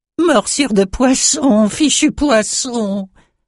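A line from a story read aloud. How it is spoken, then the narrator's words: Squeaked. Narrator (French): couina-t-il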